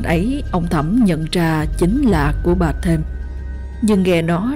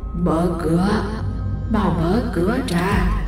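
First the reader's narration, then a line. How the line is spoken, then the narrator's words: Hoarse voice. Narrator (Vietnamese): một âm thanh khàn khàn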